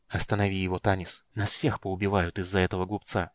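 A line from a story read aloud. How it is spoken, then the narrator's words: Whispered. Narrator (Russian): прошептал Рейслин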